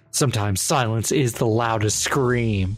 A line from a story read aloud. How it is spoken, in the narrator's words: With a stoic expression, he whispers